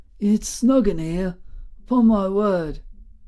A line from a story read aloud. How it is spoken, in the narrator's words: Wistfully, admiringly, the old voice added